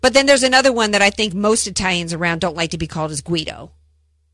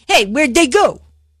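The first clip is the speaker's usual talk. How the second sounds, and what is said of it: Mocking Italian accent. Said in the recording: “It's mocking their accent... That's my impersonation of it.”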